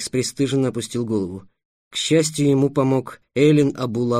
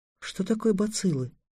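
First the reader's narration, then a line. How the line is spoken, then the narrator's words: Soft question. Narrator (Russian): спросила тихонько Тиана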